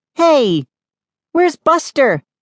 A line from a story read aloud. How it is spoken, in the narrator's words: She called out